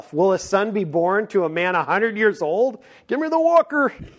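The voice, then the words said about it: Old man voice impression. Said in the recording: “You do a good impression of the old man”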